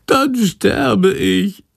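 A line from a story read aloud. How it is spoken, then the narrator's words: Whining lament. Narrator (German): jammert Chandor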